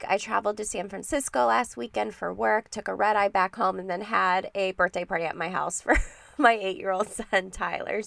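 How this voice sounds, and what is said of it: Sick, cold-affected voice. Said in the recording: “as you can tell from my voice, I've been fighting a cold all week”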